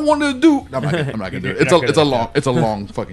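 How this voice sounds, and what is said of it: Usual voice. Nothing is said of it.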